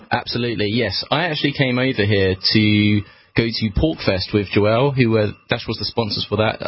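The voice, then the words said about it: British accent. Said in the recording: “you're obviously from the UK, based on your accent”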